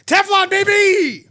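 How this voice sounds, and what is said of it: Screaming. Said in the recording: “keep screaming Teflon”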